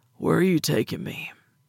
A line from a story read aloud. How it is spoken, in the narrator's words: he mumbled